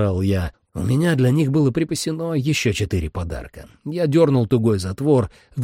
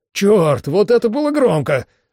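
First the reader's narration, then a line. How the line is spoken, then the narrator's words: Exclamation. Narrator (Russian): воскликнул Рэй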